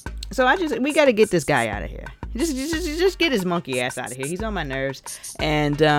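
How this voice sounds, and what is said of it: Usual voice. Nothing is said of it.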